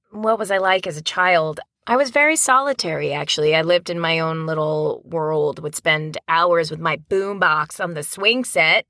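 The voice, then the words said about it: New Jersey accent. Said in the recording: “I grew up in New Jersey, ... couldn't tell by my accent.”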